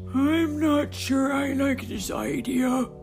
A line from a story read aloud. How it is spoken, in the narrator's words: grumbled Barty, the oldest and wisest member of the crew